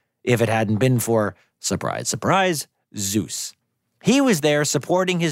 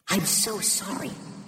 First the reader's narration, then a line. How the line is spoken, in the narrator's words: she whispered to her dear friend